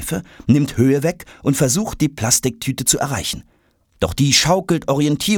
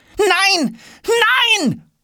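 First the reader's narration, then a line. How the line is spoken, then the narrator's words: Screaming. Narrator (German): schreit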